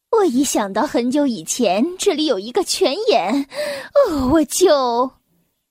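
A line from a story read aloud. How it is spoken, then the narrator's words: Sighing. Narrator (Chinese): 妈妈叹了口气说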